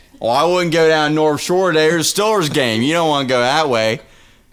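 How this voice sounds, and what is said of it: Exaggerated Pittsburgh Yinzer accent. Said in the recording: “It's like a Southern accent got kicked in the head by a donkey. ... No disrespect to my Yinzers”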